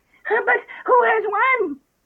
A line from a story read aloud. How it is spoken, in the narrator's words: They all panting and asking